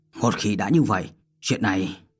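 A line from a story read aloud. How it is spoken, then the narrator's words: Growling angrily. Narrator (Vietnamese): Giải Đông Lai càng cau có thêm gầm gừ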